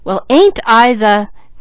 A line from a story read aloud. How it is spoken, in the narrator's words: exclaimed